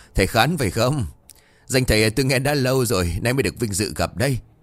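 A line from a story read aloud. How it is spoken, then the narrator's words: Loud laughter. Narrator (Vietnamese): Ông Bá cười lớn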